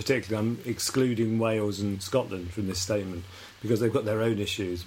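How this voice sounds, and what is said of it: Southern English accent, BBC-influenced. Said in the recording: “my accent is a Southern English accent, ... My accent is Southern English and influenced by the BBC, really.”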